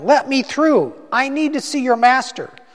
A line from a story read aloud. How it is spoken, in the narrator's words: She shouted at them